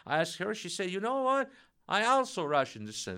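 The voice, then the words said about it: Russian accent. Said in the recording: “she felt my accent, so she learned that I'm from Russia, Russian descent”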